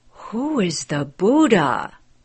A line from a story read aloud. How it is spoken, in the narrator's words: gasped